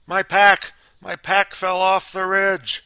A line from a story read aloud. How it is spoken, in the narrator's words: Mike wild-eyed, hollering